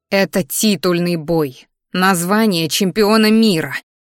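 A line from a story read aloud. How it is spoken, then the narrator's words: Through gritted teeth. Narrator (Russian): процедила сквозь зубы я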